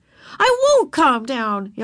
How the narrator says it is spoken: yelled Ramona so loud

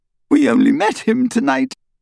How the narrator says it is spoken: Hermione sobbed

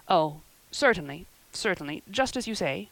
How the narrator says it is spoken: stammered unhappy Matthew

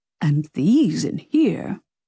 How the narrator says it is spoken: Mario sighed

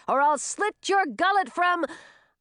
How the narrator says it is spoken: Francis shouted

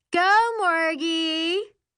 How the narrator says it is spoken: Poodles hollers while the rest of the girls cheer in approval

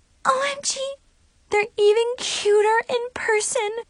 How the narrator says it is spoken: Chloe squealed

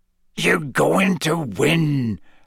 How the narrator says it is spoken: Hagrid growled

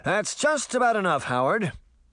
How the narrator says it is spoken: the stranger shouted at the troll

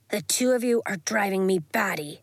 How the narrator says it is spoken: Bax growled from above

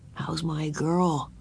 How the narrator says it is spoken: he inquired softly

